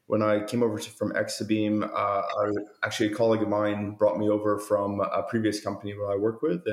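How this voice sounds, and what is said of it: Strong Canadian accent. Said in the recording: “I've got a strong Canadian accent, but I've been in Australia around 18 years.”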